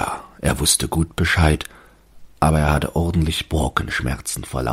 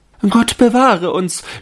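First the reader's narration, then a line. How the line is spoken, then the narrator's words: Shouting. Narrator (German): schrien die Fräulein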